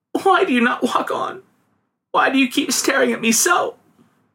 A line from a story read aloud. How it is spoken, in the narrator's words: sobbed the girl